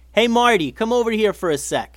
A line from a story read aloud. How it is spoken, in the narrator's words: yelled Eli